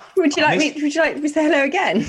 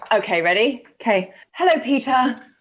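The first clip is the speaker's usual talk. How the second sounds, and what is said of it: Calm, gentle greeting. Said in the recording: “try it in a calmer voice”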